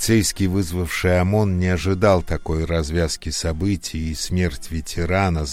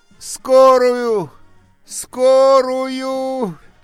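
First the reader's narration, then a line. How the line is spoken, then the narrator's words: Shouting, voice cracking. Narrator (Russian): Срывая голос, закричала Анька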